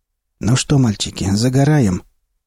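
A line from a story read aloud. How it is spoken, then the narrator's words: Hoarse, flat voice. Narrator (Russian): Голос говорившего был хриплым и невыразительным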